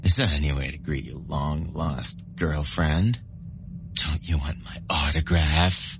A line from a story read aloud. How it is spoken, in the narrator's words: Her tone stung my ears and heart